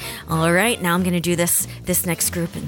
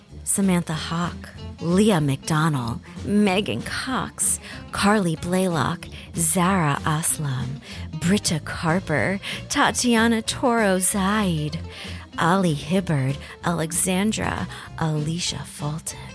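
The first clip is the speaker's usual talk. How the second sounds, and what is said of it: Sultry, seductive voice. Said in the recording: “in my sexy voice”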